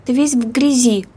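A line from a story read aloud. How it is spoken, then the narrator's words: Remarked, mother. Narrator (Russian): заметила мать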